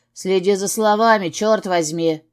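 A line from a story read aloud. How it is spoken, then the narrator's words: Barked. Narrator (Russian): рявкнул я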